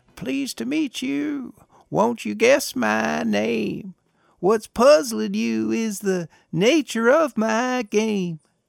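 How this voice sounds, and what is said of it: Sly, sing-song voice. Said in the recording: “in a very sly voice”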